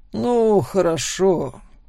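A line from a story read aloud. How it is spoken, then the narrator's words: Sigh. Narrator (Russian): вздохнул он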